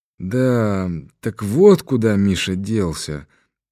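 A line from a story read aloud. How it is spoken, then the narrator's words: Sad, sighing. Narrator (Russian): проговорил он с грустью и вздохнул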